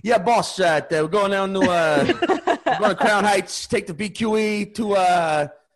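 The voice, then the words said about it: Put-on quasi-Italian New York accent. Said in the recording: “fucking quasi-Italian New York accent”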